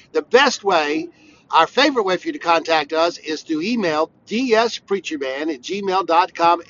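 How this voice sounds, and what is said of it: Congested, sick-sounding voice. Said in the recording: “my voice sounds a little... it just doesn't sound like me ... I have a summer cold”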